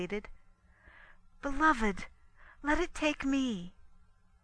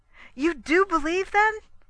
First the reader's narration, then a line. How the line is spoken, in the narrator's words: exclaimed